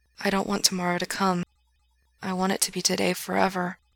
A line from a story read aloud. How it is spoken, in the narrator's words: Gerard says softly